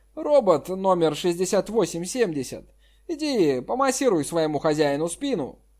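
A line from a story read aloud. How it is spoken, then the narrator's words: Laughing. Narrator (Russian): Джан Ян рассмеялся, сказал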